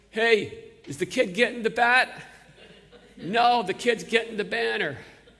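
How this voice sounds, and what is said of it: Put-on Bronx accent. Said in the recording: “with my best Bronx accent, it sounded something like this”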